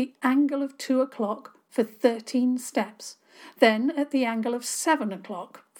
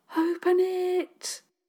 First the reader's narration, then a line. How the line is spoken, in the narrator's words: Dora said breathlessly